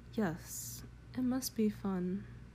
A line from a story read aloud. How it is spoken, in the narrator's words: She murmured in a dreamy voice